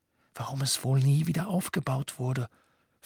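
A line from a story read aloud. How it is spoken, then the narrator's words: Whisper. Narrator (German): flüsterte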